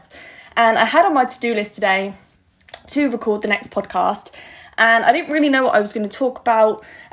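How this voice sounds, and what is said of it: Slightly out of breath. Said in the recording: “I've literally just got back in from a run, hence why I'm a little bit out of breath.”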